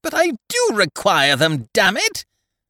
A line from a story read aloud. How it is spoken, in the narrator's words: I shouted, lost to all proper feeling